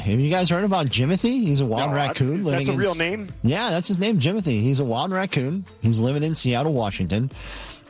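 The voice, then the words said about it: Pittsburgh Yinzer accent. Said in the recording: “my Yinzer accent that it sometimes comes out more than other times”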